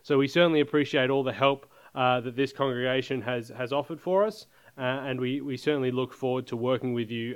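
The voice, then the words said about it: Australian accent. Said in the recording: “I am from Australia. You may have picked up the accent a little bit.”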